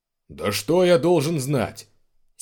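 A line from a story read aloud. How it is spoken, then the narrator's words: Angry bark. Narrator (Russian): сердито рявкнул Шаус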